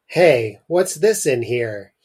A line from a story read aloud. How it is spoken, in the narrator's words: he called in a loud voice